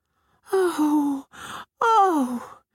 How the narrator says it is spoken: Tiyoro cried out again

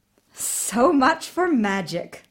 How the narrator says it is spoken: the queen laughed

